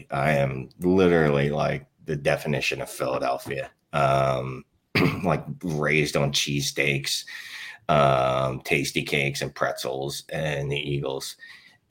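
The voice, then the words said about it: Philadelphia accent. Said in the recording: “if people can't tell by my accent, usually you can. I am Philly.”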